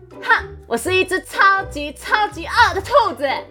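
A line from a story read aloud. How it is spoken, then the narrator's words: Loud brave shout. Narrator (Chinese): 点点鼓起勇气，大声喊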